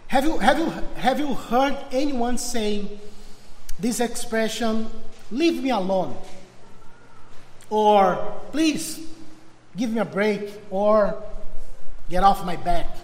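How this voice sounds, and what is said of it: Portuguese-accented English. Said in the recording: “After many years preaching Portuguese, now I have a challenge to preach in English... I will do my best for be understandable with this accent”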